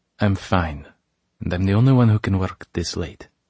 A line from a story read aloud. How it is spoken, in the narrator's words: she says a little harshly